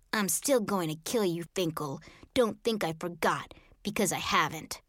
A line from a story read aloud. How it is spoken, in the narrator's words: leaned over and hissed